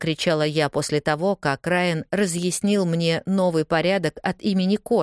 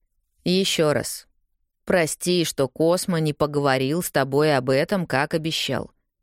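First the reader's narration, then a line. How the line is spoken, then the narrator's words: Calm, strained politeness. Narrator (Russian): спокойно ответил Райан, стараясь сохранять вежливость и краснее, потому что на нас обернулась вся редакция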